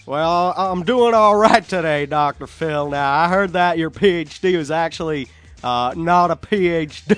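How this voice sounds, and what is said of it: Imitates another person's voice, southern accent. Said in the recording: “another guy with a southern accent ... Dr. Phil needs... Peyton Manning on a show”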